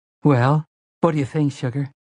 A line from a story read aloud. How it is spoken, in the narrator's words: Susanna spoke nervously, like a woman who has come home to her husband with some radical new hairdo